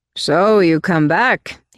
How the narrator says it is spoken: he called out

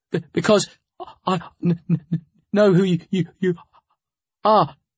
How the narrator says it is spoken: Steve stuttered, finding his voice

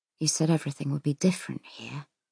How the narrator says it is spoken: he says softly

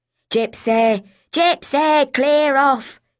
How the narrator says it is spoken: she had screamed at Fenella

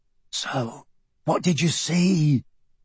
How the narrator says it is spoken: Michael asked, even more quietly than before

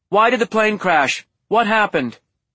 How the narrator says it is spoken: yells a brunette with a microphone

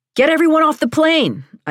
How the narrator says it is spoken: I yelled

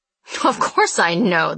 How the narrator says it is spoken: the boss laughed

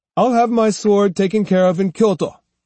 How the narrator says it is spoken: he snapped

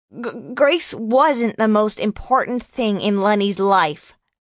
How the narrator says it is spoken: John snapped

